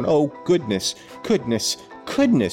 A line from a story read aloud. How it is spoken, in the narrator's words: she exclaimed desperately